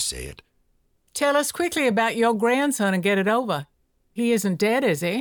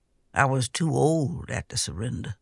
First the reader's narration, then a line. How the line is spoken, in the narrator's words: she said in a soft voice